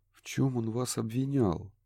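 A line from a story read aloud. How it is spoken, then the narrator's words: Barely audible. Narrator (Russian): едва слышно продолжил Курт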